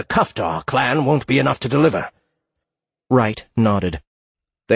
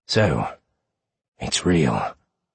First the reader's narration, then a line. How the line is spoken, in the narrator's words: Alfred whispered to himself